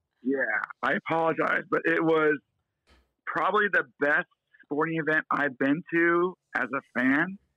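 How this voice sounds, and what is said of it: Hoarse, strained voice. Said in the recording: “I think I lost my voice tonight... It sounds like you did.”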